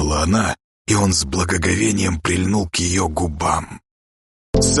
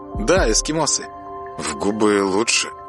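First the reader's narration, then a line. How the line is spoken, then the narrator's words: Authoritative statement. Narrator (Russian): авторитетно заявил Саша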